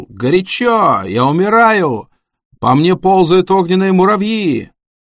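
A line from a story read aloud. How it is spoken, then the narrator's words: Screaming. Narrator (Russian): один парень завопил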